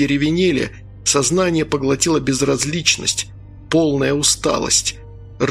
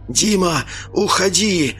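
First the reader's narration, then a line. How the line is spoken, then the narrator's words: Hoarse rasp. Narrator (Russian): прохрипел капитан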